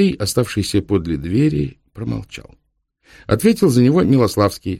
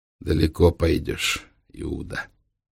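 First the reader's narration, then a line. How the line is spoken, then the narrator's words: Through clenched teeth. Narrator (Russian): процедил Трехглазый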